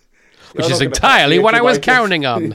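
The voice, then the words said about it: Imitates another person's voice. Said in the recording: “is that your Don Johnson impression? ... Yeah, it's not bad, is it? ... It sounds a bit like Wallace Shawn.”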